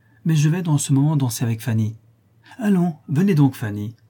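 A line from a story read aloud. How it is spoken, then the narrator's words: Exclaiming. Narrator (French): s'écria Thomas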